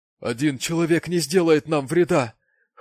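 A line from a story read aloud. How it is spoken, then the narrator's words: Whimpering. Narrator (Russian): хныкал он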